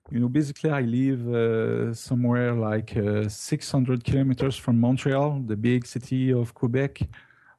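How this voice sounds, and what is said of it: French Canadian accent. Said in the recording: “that doesn't sound like what we'd call a typically English accent ... I'm a French Canadian”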